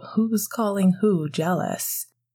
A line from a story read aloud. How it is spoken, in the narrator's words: Sirius laughed